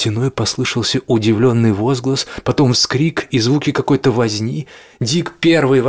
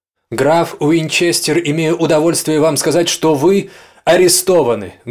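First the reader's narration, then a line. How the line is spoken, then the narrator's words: Loud formal pronouncement. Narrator (Russian): громко произнес Джеймс условленную фразу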